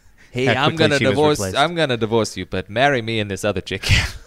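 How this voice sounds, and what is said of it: Imitates another person's voice. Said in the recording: “my Chris Pratt impression ... Half baked”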